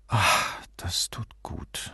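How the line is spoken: Sighing. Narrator (German): seufzte

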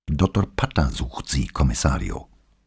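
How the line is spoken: Quiet, neutral tone. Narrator (German): sagte er leise und in ganz neutralem Ton

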